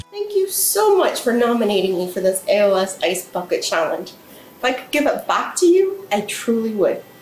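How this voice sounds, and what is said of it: Irish accent. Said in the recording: “She has this strange accent because she's from the Republic of Ireland.”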